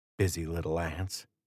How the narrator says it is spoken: he whispered

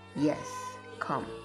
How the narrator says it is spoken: Jesus said

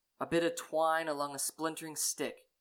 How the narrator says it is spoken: Rainier scoffed

